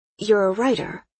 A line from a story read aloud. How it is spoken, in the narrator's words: I said